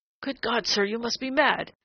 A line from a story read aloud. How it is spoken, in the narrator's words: he said in a strained, sharp voice that his ears would not have known as his own